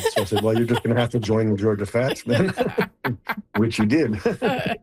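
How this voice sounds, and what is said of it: Speaking with laughter in voice. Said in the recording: “hear the laughter in your voice”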